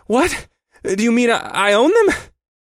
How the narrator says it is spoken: I was panting slightly

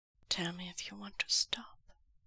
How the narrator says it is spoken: Lanjian whispers

